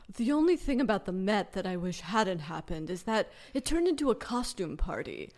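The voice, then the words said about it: Imitates another person's voice. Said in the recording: “my Tom Ford impression”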